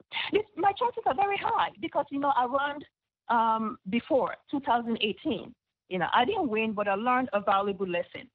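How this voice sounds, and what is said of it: Speaks English with a foreign accent. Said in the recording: “with the accent in my mouth”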